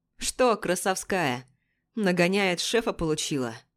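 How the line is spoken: Snide, mocking question. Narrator (Russian): Ехидно спрашивает старший следователь Ермоленко

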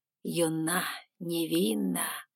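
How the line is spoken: Dreamy drawl. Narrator (Russian): мечтательно протянул он

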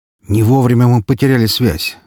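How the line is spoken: Sigh. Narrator (Russian): вздохнул хакер

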